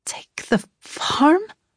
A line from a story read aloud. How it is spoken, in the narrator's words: I gasped